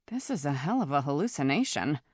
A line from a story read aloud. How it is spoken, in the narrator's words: muttered Lyra